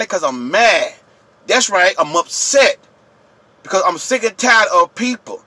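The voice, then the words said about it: Yelling angrily. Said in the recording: “I'm yelling. You know why I'm yelling?”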